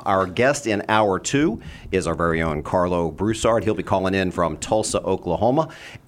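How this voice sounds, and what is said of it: Resonant radio-style voice. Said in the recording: “this voice, where is that coming from? ... You just have such a radio voice”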